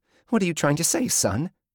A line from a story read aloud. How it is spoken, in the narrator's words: Her voice shook, her eyes welled